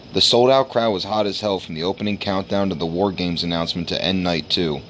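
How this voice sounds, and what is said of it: Raspy, hoarse voice. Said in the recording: “if you can't tell by my raspy-ass voice”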